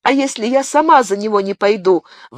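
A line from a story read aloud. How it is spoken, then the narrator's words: Exclaimed. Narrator (Russian): воскликнула Бабетта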